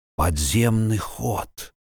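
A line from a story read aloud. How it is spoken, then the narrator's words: Stunned mutter. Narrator (Russian): ошарашенно пробормотал Вильям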